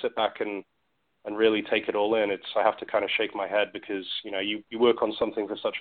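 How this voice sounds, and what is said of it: British accent. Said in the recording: “as you can tell, you know, by my accent, I grew up across the other side of the pond. So I grew up in the UK”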